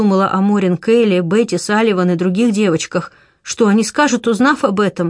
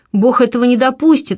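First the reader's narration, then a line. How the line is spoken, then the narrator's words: Enthusiastic exclamation. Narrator (Russian): воскликнул я с воодушевлением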